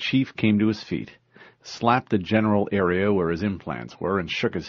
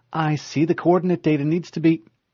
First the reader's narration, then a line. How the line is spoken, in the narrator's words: Cortana exclaimed